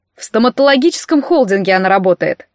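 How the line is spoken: Snort. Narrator (Russian): фыркнул Кузя

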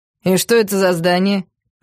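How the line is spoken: Mocking question. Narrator (Russian): насмешливо поинтересовался Витя

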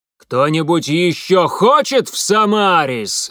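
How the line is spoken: Yelling guard. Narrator (Russian): заорал стражник

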